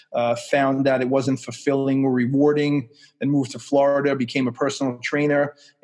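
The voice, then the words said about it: Staten Island New York accent. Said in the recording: “You could tell by the Staten Island accent.”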